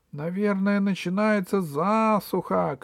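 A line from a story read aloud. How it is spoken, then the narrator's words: Shout. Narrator (Russian): крикнула Снегурочка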